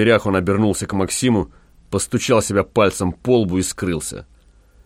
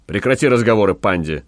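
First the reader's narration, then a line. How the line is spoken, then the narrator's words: Angry. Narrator (Russian): сердито сказал Гай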